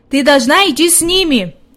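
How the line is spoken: Shouted. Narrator (Russian): крикнул он девочке

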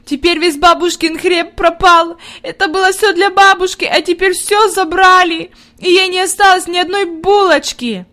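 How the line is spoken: Inconsolable sobbing. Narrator (Russian): Она рыдала так, что казалось, нет ей никакого утешения

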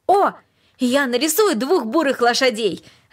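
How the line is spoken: Joyful shout. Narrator (Russian): радостно крикнул он

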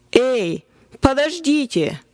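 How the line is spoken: Triumphant exclamation. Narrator (Russian): торжествующе воскликнул я

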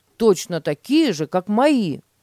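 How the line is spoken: Exclaimed. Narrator (Russian): воскликнул Петя

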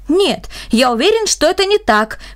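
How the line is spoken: Exclaimed. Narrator (Russian): воскликнул Бернард

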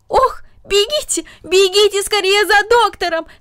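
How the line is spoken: Aunt shouting. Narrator (Russian): закричала тетя

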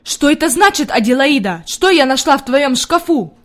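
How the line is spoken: Shouting. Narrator (Russian): закричала она

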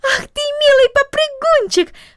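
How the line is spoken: Exclamation. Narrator (Russian): воскликнула она

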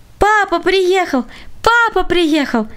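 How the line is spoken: Children shouting. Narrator (Russian): кричали дети

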